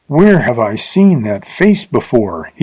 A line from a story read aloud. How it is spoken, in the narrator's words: He gasped